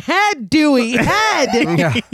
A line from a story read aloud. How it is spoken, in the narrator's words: yelling